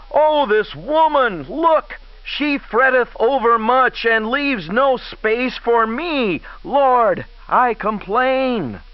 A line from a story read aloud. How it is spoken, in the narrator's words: called unto her soul and made a moan and cried to it in vain